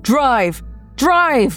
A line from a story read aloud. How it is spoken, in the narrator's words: Sean whipped his head around to scream at me